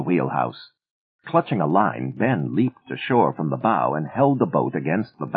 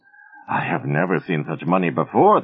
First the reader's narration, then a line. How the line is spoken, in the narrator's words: wheezed